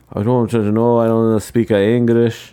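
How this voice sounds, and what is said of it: Poor Polish accent, drifting Spanish. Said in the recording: “That's a terrible impression. They speak Polish, in case you're wondering." I think I might have done a little more Spanish there”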